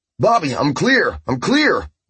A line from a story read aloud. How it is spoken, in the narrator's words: Walter yelled